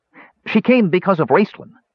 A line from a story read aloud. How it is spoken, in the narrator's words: Tass chimed in helpfully, but his voice sounded shrill and discordant in the hall